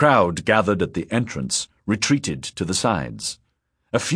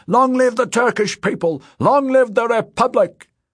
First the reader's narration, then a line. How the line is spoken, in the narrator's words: he cried